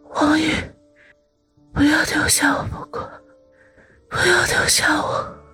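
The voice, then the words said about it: Faint, barely audible voice. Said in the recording (Chinese): “用轻不可闻的声音说”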